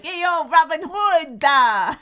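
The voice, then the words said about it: Put-on New Jersey accent. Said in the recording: “Jersey accent. Yes. Not an old Jersey accent, a new Jersey accent.”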